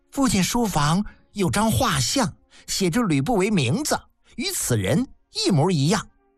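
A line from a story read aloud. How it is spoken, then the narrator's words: Smug child's laugh. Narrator (Chinese): 小儿得意地笑了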